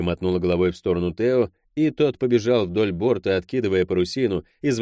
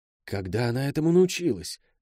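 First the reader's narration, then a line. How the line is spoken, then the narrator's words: Shocked whisper. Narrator (Russian): в шепоте Тео слышалось потрясение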